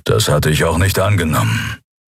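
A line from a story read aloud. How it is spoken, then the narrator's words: Growling. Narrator (German): knurrte der Skria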